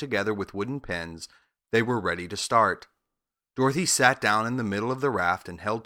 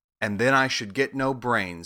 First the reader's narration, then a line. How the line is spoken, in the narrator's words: said the Scarecrow